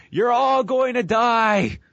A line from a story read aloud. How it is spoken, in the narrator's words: Stephanie as she just yells to the sky